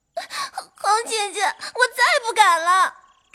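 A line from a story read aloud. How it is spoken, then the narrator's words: Dazed, crying. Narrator (Chinese): 他怔怔的，……遂哭扬说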